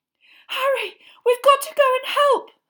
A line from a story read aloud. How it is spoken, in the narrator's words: Hermione cried